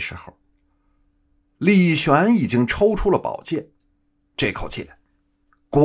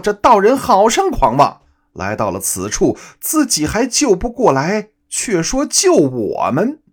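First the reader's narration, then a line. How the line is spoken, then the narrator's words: Mocking loud laughter. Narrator (Chinese): 二妖……顿时哈哈大笑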